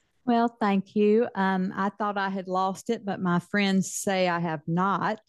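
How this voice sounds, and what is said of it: Southern US accent. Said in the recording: “I'm loving your southern accent”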